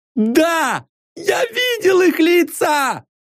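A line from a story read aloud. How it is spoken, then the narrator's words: Shouted. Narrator (Russian): закричал Янек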